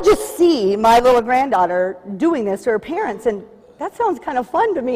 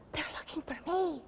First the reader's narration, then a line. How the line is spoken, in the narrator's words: Still whispering, the young voice replied with a muffled giggle